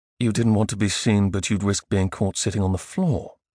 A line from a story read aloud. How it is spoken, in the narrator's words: asked mockingly